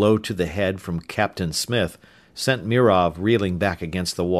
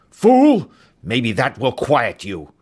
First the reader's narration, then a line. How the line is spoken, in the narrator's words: the pilot snapped viciously